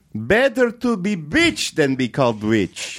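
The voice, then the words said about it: Put-on accent. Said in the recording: “That's a good accent.”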